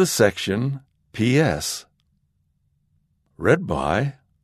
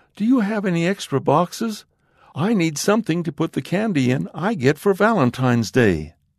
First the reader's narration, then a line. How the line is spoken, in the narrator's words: the young boy exclaims